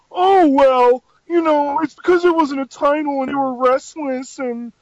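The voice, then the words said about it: Mocking impression of other people. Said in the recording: “How good his impression of us is? ... it's really, really impressive. Impression.”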